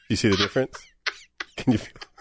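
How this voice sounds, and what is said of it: Exaggerated sultry, seductive voice. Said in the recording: “This is my sexy voice. ... This is how I talk lustfully. ... It's just a little creepy.”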